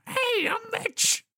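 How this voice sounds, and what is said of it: Character voice. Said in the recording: “I'll do the voice the whole time.”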